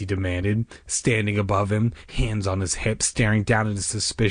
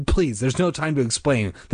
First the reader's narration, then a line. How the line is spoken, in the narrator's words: their father said urgently